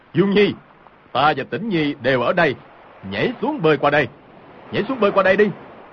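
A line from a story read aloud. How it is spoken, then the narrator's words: Loud shout. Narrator (Vietnamese): Hồng Thất Công cao giọng quát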